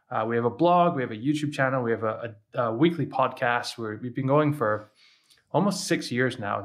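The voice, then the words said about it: Hybrid Scottish-American accent. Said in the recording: “my weird accent's from, I'm Scottish, but I used to live in America. So I have this weird hybrid thing going on ... I wouldn't put you as Scottish for sure”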